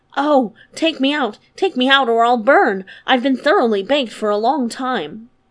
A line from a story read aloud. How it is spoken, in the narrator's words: The bread cried out